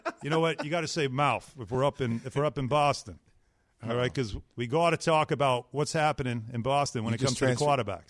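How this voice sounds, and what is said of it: Boston accent. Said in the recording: “You just did that Boston accent. You just naturally.”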